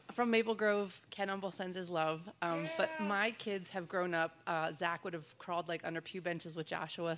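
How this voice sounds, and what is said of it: Congested voice from a head cold. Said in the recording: “I have a head cold, so it sounds like everything's echoing my head.”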